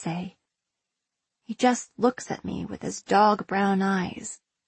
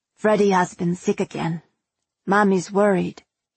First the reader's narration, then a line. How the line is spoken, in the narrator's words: he says